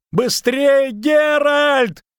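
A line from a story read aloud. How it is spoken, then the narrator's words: Shouting while running. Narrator (Russian): крикнул бегущий за ним Лютик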